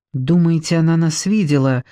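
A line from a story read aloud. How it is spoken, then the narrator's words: Trembling voice. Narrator (Russian): спросила дрожащим голосом Люся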